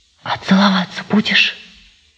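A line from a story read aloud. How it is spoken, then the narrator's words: Hot, eager whisper. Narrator (Russian): жарким шепотом спросила Варька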